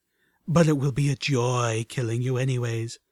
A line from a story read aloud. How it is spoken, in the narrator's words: almost purred